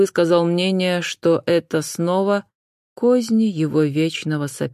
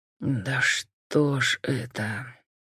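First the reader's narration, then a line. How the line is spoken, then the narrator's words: Breathy exhale. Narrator (Russian): выдохнул Джон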